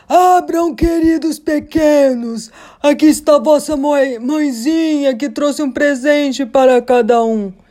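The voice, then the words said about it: Shouted line in a hoarse voice. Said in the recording (Portuguese): “gritando ... pela voz rouca”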